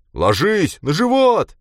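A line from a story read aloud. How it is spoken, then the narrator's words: Frightened shout. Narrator (Russian): закричал он, хотя и не в гневе, а в страхе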